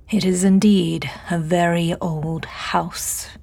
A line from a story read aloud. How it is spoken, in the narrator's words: James drawled, a slight insulting emphasis on the last word